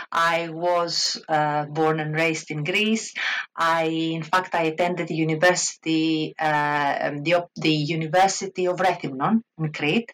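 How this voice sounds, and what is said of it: Greek accent. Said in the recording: “Obviously, I'm a Greek. You can probably hear it from my accent.”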